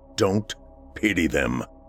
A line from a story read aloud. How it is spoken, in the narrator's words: he said gruffly